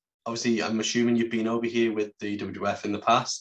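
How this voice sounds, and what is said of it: British accent. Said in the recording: “you may have been able to tell from our accents we're from the UK”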